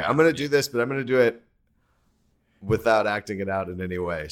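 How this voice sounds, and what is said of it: Usual voice. Nothing is said of it.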